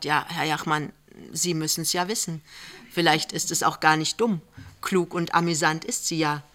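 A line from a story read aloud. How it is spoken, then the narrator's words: Hesitant. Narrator (German): Lämmchen sagt zögernd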